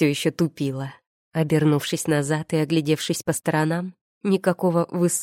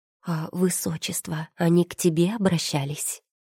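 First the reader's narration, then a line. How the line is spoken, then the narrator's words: Whisper. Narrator (Russian): прошептала я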